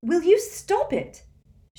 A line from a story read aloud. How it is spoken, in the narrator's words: she cried